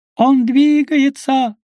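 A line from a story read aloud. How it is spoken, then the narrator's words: Shouting. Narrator (Russian): закричал он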